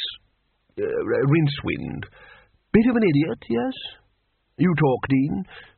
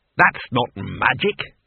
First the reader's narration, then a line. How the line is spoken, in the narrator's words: he snapped